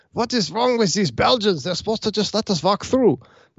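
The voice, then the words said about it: Bad mock German accent. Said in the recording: “that's my bad German accent”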